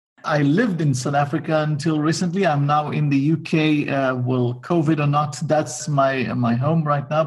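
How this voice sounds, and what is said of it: Israeli accent. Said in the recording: “with my crooked, very incomplete level of accent, you will figure it out. I'm probably part of the Israeli clan.”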